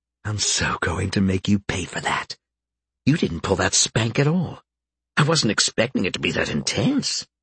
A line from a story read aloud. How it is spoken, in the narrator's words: Karen, whispering softly